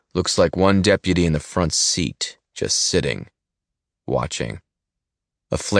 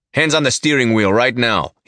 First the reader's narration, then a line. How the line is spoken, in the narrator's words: he snaps out